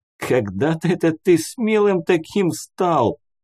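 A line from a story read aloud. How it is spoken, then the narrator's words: Laughing. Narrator (Russian): хохотал он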